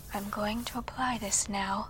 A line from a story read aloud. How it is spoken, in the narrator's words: she softly uttered